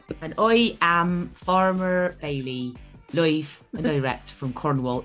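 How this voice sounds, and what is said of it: Put-on Dorset rural accent. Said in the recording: “even though this is actually a Dorset accent.”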